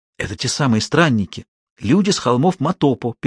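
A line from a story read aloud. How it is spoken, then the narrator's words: Children whispering together. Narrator (Russian): перешептывались дети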